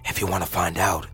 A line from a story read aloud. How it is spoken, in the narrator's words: he whispered